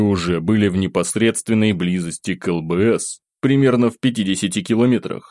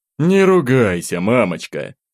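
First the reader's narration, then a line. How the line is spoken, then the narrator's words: Sigh. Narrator (Russian): вздохнул Иван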